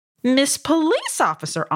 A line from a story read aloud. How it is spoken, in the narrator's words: Amu exclaimed